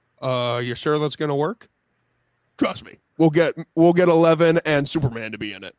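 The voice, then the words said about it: Imitates Netflix executives. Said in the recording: “your fantastic impression of the Netflix headquarters”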